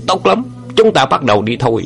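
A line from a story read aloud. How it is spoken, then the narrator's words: Angry roar. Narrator (Vietnamese): Song quái cả giận quát lớn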